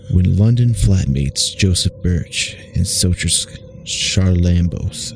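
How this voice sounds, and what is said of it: Attempted creepy storytelling voice. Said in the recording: “I'm trying to do a creepy voice.”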